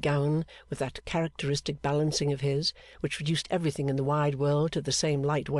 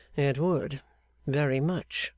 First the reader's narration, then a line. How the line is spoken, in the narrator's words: said Clennam dryly